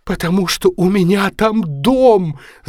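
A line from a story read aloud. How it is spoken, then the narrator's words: Sobbing. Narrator (Russian): зарыдала она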